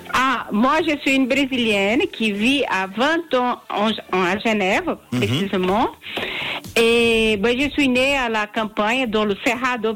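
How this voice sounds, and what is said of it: French with Brazilian accent. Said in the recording (French): “Oh, quel bel accent ... l'accent brésilien.”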